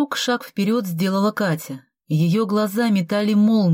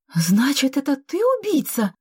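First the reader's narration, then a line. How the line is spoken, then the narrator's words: Exclaimed. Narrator (Russian): воскликнула она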